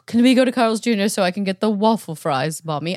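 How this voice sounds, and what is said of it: Put-on British accent. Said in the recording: “British accent ... you're very European”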